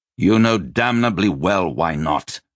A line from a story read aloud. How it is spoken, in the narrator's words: Joshua snapped